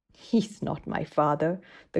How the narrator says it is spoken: the girl replied scornfully

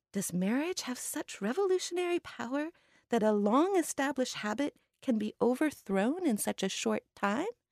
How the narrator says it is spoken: Granny Lin sighs

